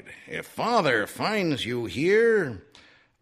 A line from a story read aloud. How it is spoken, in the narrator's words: she cried